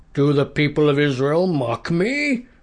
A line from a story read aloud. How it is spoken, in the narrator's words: the giant bellowed